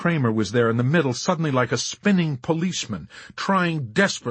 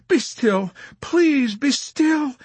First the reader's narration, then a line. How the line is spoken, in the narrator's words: she urged uselessly through her massive sobs